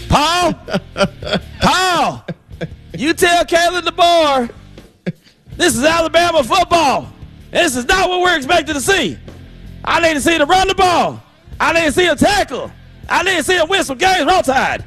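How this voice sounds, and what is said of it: Put-on Southern accent. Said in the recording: “Why are you speaking with a Southern accent? ... I'm trying to disguise myself”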